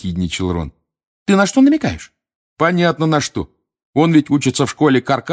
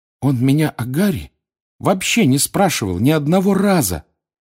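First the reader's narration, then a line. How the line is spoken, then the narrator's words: Trembling voice. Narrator (Russian): сказала дрожащим голосом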